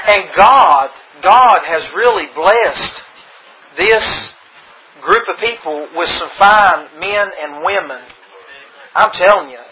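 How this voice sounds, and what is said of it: Speaks with a noticeable accent. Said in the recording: “I hope you can understand my accent,”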